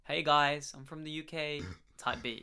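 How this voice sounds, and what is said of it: Put-on American accent. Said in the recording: “I don't know why I said it in an American accent”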